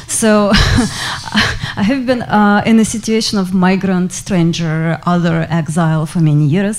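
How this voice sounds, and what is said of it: Russian accent. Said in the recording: “you might hear by the accent, you know, it's a Russian accent.”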